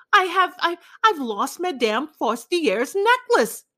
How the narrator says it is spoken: she cried

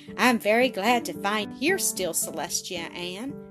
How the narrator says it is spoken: Don said with a good-humored laugh

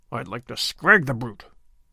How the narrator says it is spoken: muttered Sir Andrew savagely

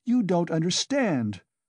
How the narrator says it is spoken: cried Katerina Ivanovna, angrily

